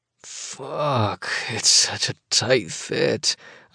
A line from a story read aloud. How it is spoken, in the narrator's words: rasp